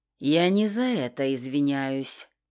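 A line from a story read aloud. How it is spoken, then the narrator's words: Gruff mumble. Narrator (Russian): буркнул он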